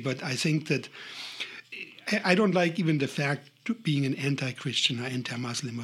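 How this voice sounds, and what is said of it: Heavy non-native accent. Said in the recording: “sorry for my heavy accent,”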